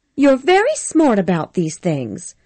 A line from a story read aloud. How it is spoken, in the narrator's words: she said, smiling sweetly at him